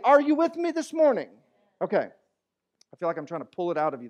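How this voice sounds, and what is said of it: Talking very loudly. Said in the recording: “That's why I'm talking so loud.”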